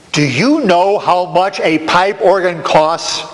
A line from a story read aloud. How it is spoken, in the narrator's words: Lewis asked